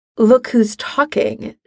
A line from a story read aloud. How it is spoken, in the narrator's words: she mutters under her breath